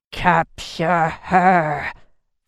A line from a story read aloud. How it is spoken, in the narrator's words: Vadim hissed